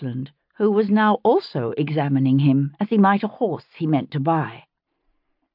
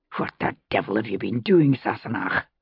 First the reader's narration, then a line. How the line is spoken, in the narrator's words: He hissed